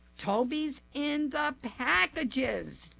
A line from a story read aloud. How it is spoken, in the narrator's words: Chuck shouted